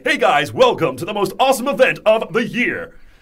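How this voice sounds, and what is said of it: Upbeat hyped presenter voice. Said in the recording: “this presenter voice comes on ... this is like my presenter voice”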